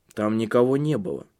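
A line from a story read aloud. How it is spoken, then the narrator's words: Tense voice. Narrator (Russian): сказал он напряженным голосом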